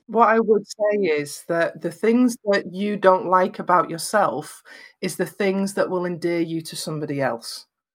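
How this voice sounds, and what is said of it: Lancashire English accent, flat vowels. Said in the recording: “my accent, and I'm from Lancashire in Northwest England, so I have very flat vowels”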